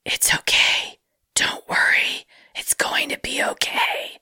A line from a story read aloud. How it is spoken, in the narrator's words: whispered